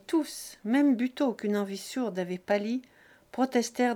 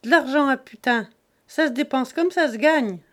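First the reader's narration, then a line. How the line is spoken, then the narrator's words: Sneering laugh. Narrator (French): ricana Jésus-Christ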